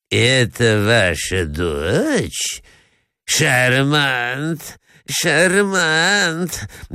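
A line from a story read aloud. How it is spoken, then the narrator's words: Greedy muttering, prince. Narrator (Russian): бормочет князь с жадностью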